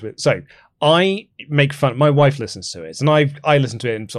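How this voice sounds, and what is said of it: Usual voice. Nothing is said of it.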